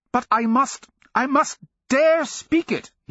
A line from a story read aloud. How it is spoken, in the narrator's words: he cried, his shaved jowls trembling